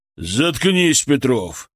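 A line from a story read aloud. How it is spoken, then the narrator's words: Barked. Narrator (Russian): рявкнул на него Лемигов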